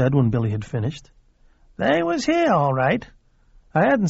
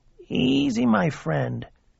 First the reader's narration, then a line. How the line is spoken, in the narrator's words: he said in his whispering voice